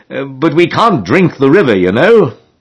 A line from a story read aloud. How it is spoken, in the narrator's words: exclaimed George, grasping the idea